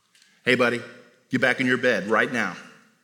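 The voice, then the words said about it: Stern fatherly dad voice. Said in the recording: “I got a pretty good dad voice.”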